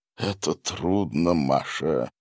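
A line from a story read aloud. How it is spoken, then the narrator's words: Hollow, sepulchral voice. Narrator (Russian): произнес он глухим, могильным голосом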